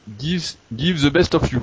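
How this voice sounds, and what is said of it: French-accented English. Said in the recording (French): “vous avez vu mon accent anglais, bon forcément”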